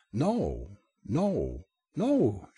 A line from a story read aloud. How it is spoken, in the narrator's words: she exclaimed